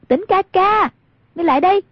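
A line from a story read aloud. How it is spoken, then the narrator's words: Raised calling voice. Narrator (Vietnamese): Hoàng Dung cao giọng gọi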